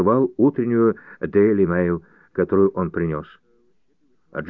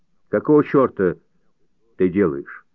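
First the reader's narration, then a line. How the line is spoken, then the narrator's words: Stern question. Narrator (Russian): строго спросил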